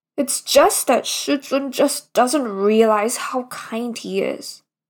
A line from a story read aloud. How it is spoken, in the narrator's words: his disciple said in a near grumbling tone